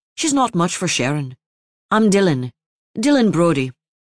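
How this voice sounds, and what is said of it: Irish accent. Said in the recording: “his accent Irish”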